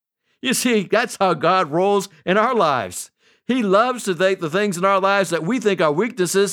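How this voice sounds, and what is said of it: Strong, distinctive foreign accent. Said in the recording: “your accent would never work ... Now I have the most imitated accent.”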